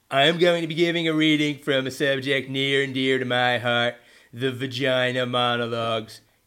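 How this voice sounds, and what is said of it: Imitates another person's voice. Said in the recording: “another Trump impersonator”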